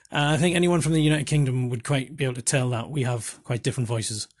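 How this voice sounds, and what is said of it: Geordie Northeast England accent. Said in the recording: “I've got a Geordie Northeast England accent”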